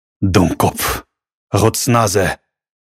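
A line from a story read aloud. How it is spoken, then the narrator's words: Hoarse, husky voice. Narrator (Russian): странник сипло произнес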